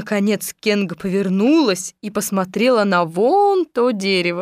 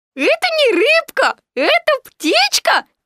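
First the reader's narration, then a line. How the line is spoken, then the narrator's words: Squeak. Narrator (Russian): пискнул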